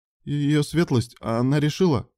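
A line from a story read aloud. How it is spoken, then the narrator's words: Stammering report. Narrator (Russian): запинаясь, докладывал дворецкий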